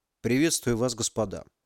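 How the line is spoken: Dry greeting. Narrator (Russian): сухо поздоровался Максим

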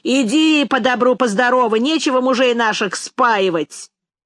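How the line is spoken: Women shouting. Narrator (Russian): жены их кричали Мизинчику

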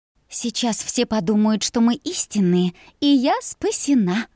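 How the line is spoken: Breathy whisper, suppressing laughter. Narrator (Russian): шепнула с придыханием, хотя саму смех разбирал

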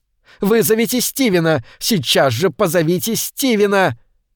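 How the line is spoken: Screaming. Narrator (Russian): Она перестала вопить

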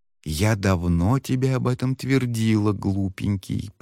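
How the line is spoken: Fox whispering into ear. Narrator (Russian): прошептала лисица прямо ему в ухо

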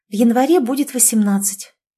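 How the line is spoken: Soft timid babble. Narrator (Russian): пролепетала она тихо

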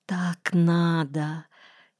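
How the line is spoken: Quiet moan. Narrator (Russian): тихо простонала она

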